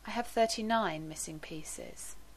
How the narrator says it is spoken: he said softly

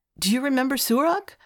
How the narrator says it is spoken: Spirik asked eagerly

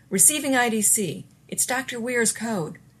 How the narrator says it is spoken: Harriman shouted

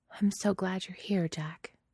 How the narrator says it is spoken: she says, very quietly

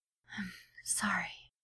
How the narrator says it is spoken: listens to him whisper

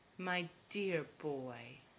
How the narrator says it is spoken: Magneto murmurs approvingly

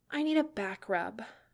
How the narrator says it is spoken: muttered, pouting a little

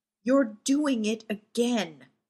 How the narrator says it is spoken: Ray snarled

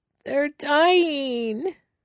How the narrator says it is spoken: he wails

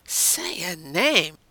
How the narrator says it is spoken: John silently begged

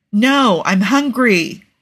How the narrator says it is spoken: Tony exclaims

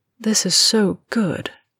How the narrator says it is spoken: murmured

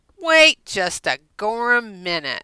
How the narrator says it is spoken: Wilmot snarled

